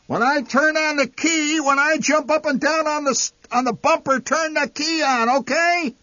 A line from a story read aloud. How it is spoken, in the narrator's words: Enraged, the old man shouting